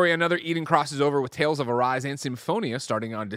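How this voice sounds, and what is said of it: Usual voice. Nothing is said of it.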